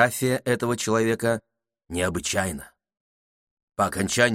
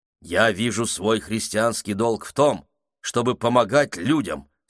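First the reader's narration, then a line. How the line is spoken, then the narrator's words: Plain. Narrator (Russian): сказал он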